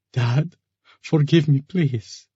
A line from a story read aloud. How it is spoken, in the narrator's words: sobbed